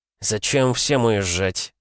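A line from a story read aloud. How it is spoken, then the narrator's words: Gloomy question. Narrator (Russian): мрачно спросил губернатор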